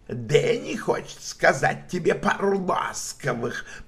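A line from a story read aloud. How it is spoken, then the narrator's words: Hissed. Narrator (Russian): прошипел он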